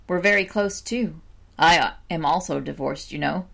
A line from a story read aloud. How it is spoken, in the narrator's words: remarked Park sadly